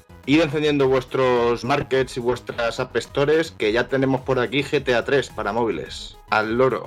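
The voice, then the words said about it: Put-on Madrid Spanish accent. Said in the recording (Spanish): “ese acento, madrileño que te ha salido de repente”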